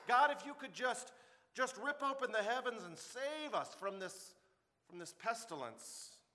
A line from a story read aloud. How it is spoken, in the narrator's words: cried out to God